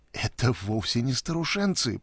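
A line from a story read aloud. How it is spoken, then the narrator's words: Mumble. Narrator (Russian): пробормотала она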